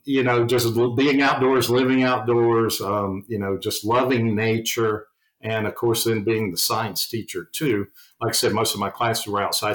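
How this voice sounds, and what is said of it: Southern US accent. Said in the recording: “being from the South, if people can't tell from my accent”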